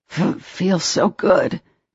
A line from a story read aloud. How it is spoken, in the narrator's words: Trey gasped